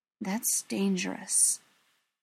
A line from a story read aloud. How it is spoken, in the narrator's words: Greta said quietly